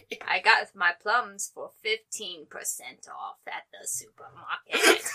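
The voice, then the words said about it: Palpatine villain character voice. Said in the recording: “best Palpatine impression”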